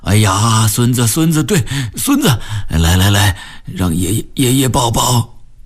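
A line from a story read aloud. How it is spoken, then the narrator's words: Delighted chuckling. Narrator (Chinese): 井垮子呵呵地笑了起来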